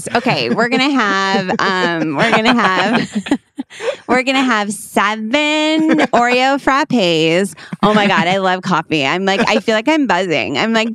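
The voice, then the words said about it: Exaggerated girl character voice. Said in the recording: “That's my impression of the girl. And I'm sorry, sometimes I'm a real theater kid on here”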